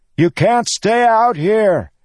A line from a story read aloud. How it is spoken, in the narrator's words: he shouted at them all